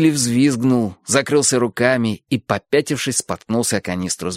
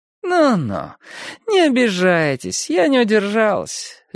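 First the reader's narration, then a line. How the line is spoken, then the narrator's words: Lazy, indifferent drawl. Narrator (Russian): лениво протянула мать Хилли, так что стало ясно, ее ни капельки не волнует, обиделись они или нет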